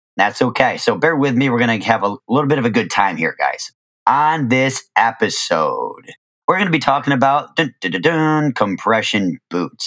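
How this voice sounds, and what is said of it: Slightly hoarse voice. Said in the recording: “My voice is a little bit hoarse”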